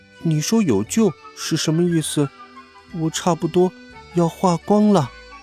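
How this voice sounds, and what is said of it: Quiet, hushed voice. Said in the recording (Chinese): “雪人小声说”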